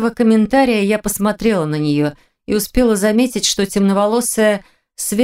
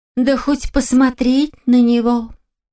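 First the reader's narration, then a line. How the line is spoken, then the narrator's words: Dreamy distant girl's sigh. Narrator (Russian): Мечтательно вздохнула какая-то девушка, сидевшая довольно далеко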